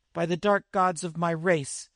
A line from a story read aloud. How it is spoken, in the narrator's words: he cried in anger